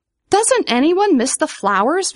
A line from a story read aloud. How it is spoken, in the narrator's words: Vivian cried